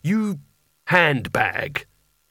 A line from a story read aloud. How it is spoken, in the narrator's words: he growled